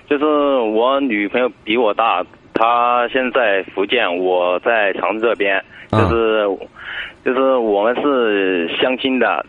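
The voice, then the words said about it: Sichuan-accented Mandarin. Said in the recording (Chinese): “我听口音不是本地人呢。...我是四川的”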